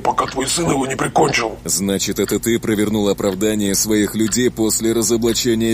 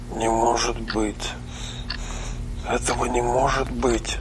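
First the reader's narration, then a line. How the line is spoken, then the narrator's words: Quiet, spoken downward. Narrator (Russian): тихо сказал дантист в пол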